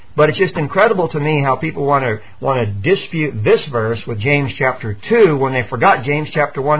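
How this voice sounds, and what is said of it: Usual voice. Nothing is said of it.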